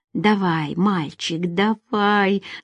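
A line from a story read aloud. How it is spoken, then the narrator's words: Through gritted teeth. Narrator (Russian): сквозь зубы процедила Надежда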